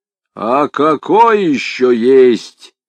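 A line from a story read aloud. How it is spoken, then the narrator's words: Growl. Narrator (Russian): рыкнул полномуч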